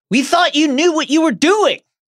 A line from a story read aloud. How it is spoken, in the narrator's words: shouted Ron